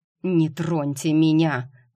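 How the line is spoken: Hissed. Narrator (Russian): прошипел мистер Доу

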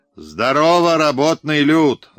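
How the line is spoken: Full-voiced shout. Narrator (Russian): закричал он во весь голос

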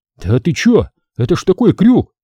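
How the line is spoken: Skull exclaiming. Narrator (Russian): воскликнул череп

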